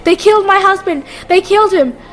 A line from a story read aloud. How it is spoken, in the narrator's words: The woman screamed